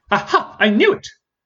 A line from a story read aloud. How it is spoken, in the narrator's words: declared Parthenia